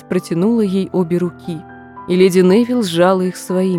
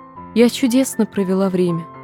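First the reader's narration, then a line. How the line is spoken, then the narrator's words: Gentle, affectionate. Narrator (Russian): сказала смерть ласково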